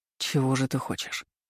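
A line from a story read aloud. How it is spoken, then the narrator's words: Very soft. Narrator (Russian): Проговорил так мягко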